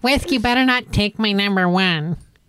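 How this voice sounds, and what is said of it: Imitates another person's voice. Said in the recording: “That's a good Dre impression.”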